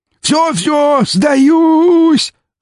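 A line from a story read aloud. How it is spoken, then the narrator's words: Shrieking. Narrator (Russian): завизжал он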